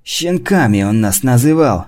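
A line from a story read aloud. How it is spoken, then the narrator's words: Hissed through teeth, fat man. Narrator (Russian): сквозь зубы прошипел толстяк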